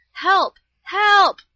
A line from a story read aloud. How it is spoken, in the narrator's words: with all my strength